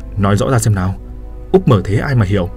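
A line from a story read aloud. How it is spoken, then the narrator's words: Dazed stammering. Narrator (Vietnamese): Tôi ngẩn người, giọng lắp bắp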